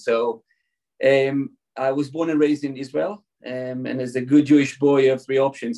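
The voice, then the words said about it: Non-native English accent. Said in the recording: “You can probably hear from my accent, I wasn't born in California exactly... I can't get rid of my accent.”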